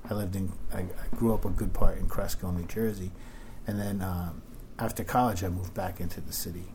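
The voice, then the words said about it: New York-New Jersey accent. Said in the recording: “You have a distinct vernacular. ... you got an accent. ... it's a little mix of New York and New Jersey.”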